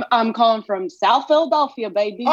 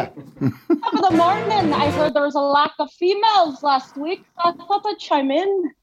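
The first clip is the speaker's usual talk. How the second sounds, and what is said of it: Put-on Irish accent. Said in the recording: “drop the accent, because it's very... ... It's very good.”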